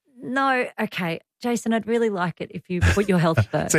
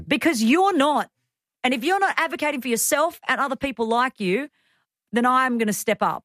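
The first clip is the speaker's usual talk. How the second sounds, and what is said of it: Angry yelling. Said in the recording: “Why are you yelling? ... I got really angry about this. ... Don't yell at us.”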